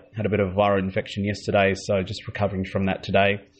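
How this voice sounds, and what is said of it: Sore, strained throat voice. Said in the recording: “Sorry for the voice. I've got a bit of a sore throat.”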